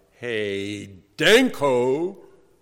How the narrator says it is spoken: without any warning, I called out aloud

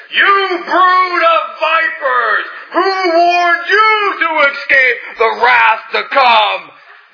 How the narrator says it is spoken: shouted

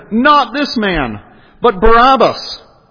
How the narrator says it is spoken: They cried out again

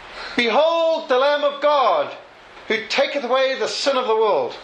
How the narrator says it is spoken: Testing the acoustics in a vast agricultural hall, Spurgeon shouted

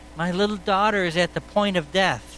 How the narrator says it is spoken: one of the rulers of the synagogue, Jairus by name, implored him earnestly, saying

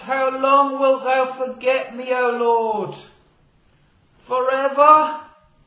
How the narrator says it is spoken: David cried out

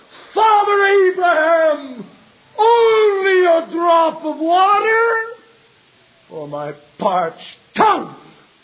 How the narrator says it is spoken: the rich man in hell cried

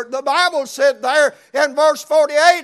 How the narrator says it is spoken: he cried even more

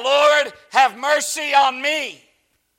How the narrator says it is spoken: She cried out

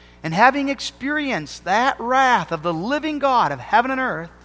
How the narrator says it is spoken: he cried out

